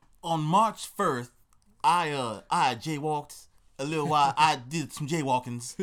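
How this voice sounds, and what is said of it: Made-up old Southern voice with lisp. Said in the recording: “Don't know what that accent was... is he turning southerner?... I just made a voice up... Just some old southern dude who had a lisp.”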